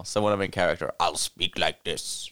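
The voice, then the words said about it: Troll character voice. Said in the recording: “That's my troll voice now ... you're going to be stuck doing that voice”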